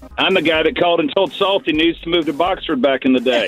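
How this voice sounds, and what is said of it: Southern American twang. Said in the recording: “What is that delightful accent? ... Is that a twang? ... That didn't sound like Boxford to me.”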